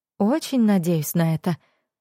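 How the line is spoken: Sighing. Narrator (Russian): вздохнула Вивьен

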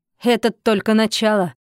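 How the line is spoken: Satisfied snort. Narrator (Russian): хмыкнула она удовлетворенно

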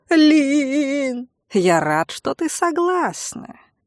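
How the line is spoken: Purring. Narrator (Russian): промурлыкал этот гад

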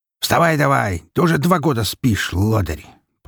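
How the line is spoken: Grumbling pig. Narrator (Russian): проворчал свин

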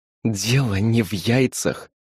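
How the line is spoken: Through clenched teeth, young woman. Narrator (Russian): процедила девушка в синем поношенном халате

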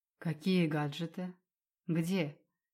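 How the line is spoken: Smirking. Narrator (Russian): Усмехнулся он

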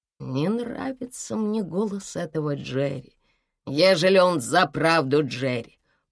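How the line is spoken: Muttered under breath. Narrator (Russian): пробормотал себе под нос кондуктор

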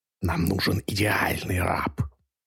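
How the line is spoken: Hissed. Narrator (Russian): прошипел он

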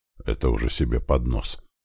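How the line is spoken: Muttered. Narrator (Russian): пробормотал он

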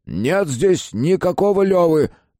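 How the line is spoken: Angry shout. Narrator (Russian): крикнул Иван Борисович, злясь на себя за минутный испуг

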